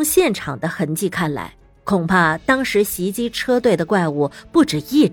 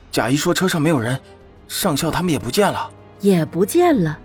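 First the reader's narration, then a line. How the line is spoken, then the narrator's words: Grave voice. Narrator (Chinese): 贾二声音凝重道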